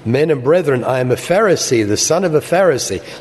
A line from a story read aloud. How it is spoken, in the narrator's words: he cried out to the council